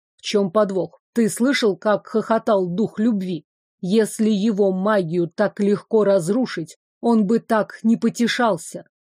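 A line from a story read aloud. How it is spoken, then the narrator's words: Quiet growl, then question. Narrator (Russian): тихо рыкнул, после чего спросил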